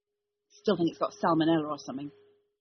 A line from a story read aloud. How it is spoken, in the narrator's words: he muttered